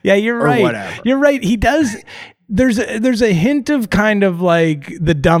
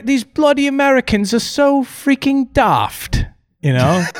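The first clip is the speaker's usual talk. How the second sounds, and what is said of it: Put-on British accent. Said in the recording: “I can't do the British accent.”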